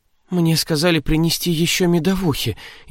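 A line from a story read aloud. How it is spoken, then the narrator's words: Frightened bleat. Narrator (Russian): испуганно проблеяла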